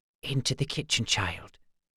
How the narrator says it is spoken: she whispered

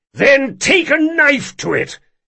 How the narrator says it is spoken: he shouted

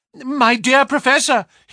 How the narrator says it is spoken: he cried

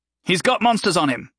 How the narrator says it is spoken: Rick barked at the others

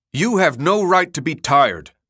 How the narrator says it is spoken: Fawcett snapped at Murray

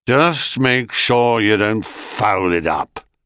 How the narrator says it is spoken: grunted Hades

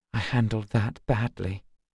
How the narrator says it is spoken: she whispered

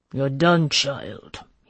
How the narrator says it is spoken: growled

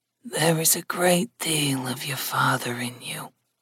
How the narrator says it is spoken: his mother said in a soft voice

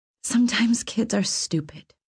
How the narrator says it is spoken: I said softly

